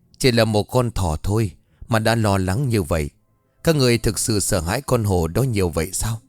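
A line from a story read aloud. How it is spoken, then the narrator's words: Smiling, strange deep voice. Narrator (Vietnamese): Ông Khương thấy vậy thì mỉm cười rồi kết lời với một chất giọng ồm ồm hết sức kỳ quái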